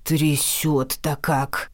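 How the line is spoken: Old man grumbling, uncomfortable. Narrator (Russian): ворчал старик, у которого никак не получилось устроиться на мягких подушках поудобнее

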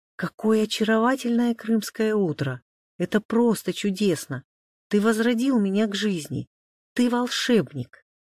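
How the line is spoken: Exclamation. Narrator (Russian): воскликнула Маша

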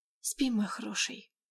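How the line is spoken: Soft whisper. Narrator (Russian): тихо шепнула

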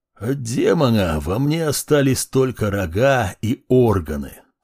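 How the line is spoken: Dry, very creaky. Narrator (Russian): Сухо и очень скрипуче ответил мужчина

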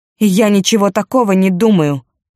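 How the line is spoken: Angry. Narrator (Russian): сердито сказала

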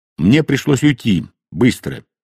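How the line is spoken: Plain. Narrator (Russian): ответил он

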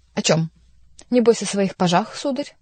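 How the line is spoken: Irritated. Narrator (Russian): раздраженно спросил Шико

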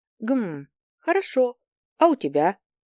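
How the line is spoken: Formal tone. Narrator (Russian): Она почему-то разговаривала официальным тоном

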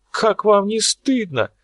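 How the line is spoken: Middle-aged woman screaming. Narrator (Russian): завопила какая-то дама средних лет

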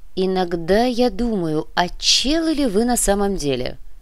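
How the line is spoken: Amused drawl. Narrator (Russian): протянул комиссар, весело

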